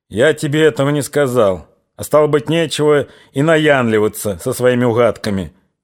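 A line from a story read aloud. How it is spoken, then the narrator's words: Rude curt interruption, commander. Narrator (Russian): грубо оборвал его казачий комбриг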